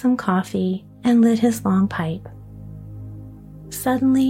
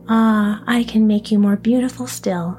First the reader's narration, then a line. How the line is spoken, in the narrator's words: said he